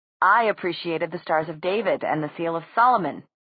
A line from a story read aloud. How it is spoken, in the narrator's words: Simon added dryly